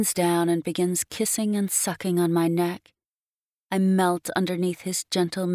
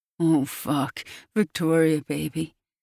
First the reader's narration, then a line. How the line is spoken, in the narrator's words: he groans into my neck